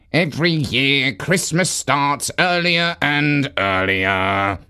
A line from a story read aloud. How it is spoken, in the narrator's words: grumbled Dasher